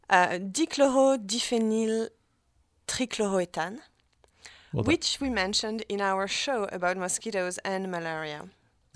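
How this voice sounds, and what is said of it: French accent. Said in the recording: “with my French accent”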